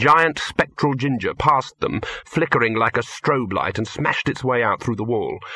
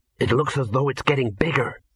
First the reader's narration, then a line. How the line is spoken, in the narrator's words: whispered Ginger